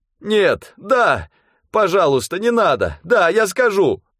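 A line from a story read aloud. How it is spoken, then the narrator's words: Pained shout. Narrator (Russian): Тот скорчился от боли и крикнул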